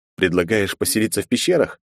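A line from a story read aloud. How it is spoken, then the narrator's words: Sarcastic snort. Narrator (Russian): хмыкнул Андрей с явным сарказмом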